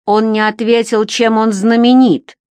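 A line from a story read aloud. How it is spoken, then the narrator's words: Scarred brute's grumble. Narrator (Russian): проворчал детина со шрамом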